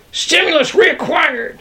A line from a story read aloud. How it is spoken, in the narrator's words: I yelled